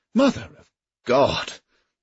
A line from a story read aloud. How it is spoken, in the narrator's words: groaned Kildare